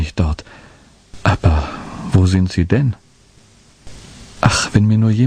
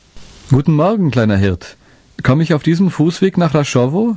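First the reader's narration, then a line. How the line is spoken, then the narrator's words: Calling from afar. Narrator (German): rief schon von Weitem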